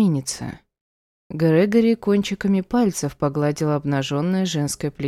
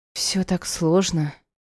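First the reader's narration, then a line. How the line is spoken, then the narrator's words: Relieved sigh. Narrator (Russian): вздохнула Грация, чувствуя, как тревога отступает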